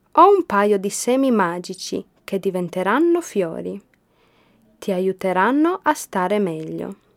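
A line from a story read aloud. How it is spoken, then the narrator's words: Plain. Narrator (Italian): gli disse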